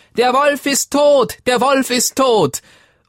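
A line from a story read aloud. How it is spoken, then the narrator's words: Young goats shouting loudly. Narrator (German): Als die 7 Geißlein das sahen, riefen sie laut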